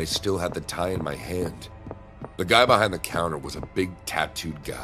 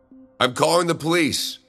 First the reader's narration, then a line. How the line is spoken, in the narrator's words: I shouted